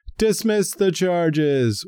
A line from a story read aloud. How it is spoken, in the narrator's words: an anti-abortion protester burst into the Senate Visitors Gallery Wednesday and screamed